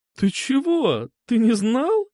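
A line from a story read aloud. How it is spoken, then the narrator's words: Sudden laughter. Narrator (Russian): Она вдруг рассмеялась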